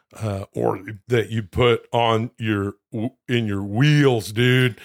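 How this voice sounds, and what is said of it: Imitates another person's voice. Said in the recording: “that impersonation right there is simply Robert Loggia”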